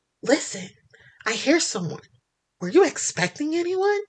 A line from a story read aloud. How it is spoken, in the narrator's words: loudly whispers